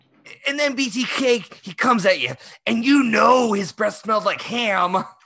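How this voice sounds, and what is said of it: Imitates another person's voice. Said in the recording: “My impression of Last Podcast on the Left is Henry Zebrowski going”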